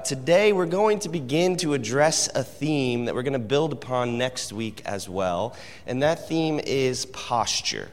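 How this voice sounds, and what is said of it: Voice affected by a cold. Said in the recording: “Apologize for my voice this morning. I'm getting over a little bit of a cold”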